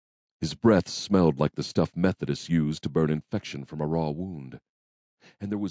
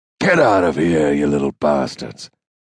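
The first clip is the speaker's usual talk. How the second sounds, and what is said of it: Rasping, spat character voice. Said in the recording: “the stranger spat in a rasping voice.”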